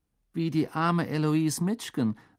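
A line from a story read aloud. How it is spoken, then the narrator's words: Shy voice. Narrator (German): sagte Hannah Abbott, eine Hufflepuff mit schüchterner Stimme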